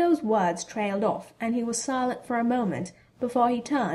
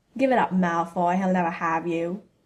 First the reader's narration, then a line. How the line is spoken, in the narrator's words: Ron sneered